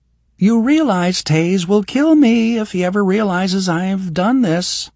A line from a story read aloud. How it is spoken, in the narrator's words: Kira said cheerfully